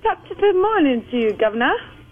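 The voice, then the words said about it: Clumsy put-on British-style accent. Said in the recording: “it's better, but it still sounds like Harry Potter and the Butcher of Accents”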